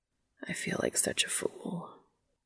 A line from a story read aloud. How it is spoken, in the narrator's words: he says, almost a whisper